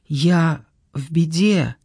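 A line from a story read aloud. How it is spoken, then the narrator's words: Whisper. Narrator (Russian): прошептала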